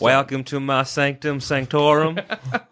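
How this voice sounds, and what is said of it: Put-on Texan accent. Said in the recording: “Texan Doctor Strange ... Why not go a bit further south? ... Why not just do a Texan one?”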